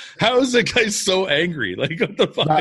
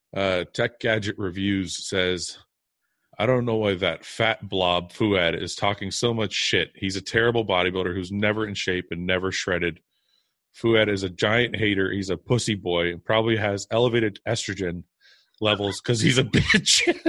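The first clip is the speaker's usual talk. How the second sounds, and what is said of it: Flat monotone reading voice. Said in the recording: “I got to get my most monotone voice.”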